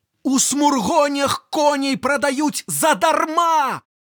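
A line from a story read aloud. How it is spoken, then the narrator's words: Male shouting. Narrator (Belarusian): крычыць ён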